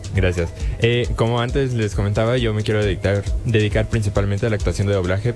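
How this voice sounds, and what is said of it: Rich radio announcer voice. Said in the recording (Spanish): “¡Ay, qué voz! ... Voz de locutor.”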